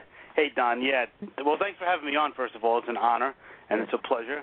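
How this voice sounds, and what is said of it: Slight New York accent. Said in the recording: “I detected a little New York accent there.”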